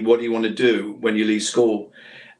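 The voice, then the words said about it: Ilkeston, Derbyshire English accent. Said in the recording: “I have to do my Ilkeston accent now”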